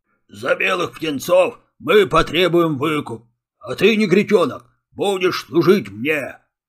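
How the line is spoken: Deep bass voice. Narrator (Russian): пробасил рыжий пес

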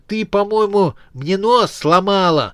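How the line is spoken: Nasal, muffled. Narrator (Russian): загнусавил, прижимая ладони к лицу

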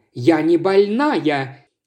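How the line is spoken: Exclamation. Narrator (Russian): воскликнула миссис Реймер

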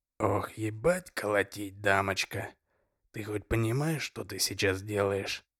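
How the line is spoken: Quiet, serious. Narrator (Russian): тихо и серьезно сказал

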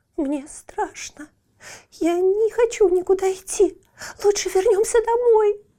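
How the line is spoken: Whimpering little one. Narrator (Russian): захныкала маленькая метель

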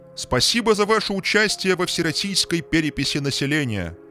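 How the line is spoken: Loud, calming. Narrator (Russian): сказал настолько громко, насколько мог, чтобы успокоить зевак

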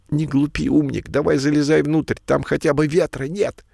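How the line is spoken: Sharp scolding shout. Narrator (Russian): прикрикнул на сородича Пушок

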